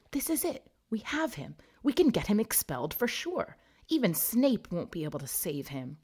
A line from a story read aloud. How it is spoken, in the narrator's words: Hermione whispered to him excitedly